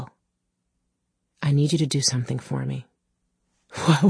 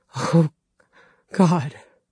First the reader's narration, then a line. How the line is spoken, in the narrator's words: Dale rasped